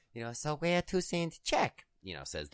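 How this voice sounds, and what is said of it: Exaggerated stereotyped foreign accent. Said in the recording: “I'm about to do a horribly stereotype accent”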